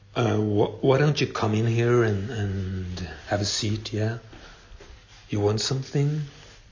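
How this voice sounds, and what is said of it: Swedish accent. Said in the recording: “You think my accent is strange? Well, I am Swedish.”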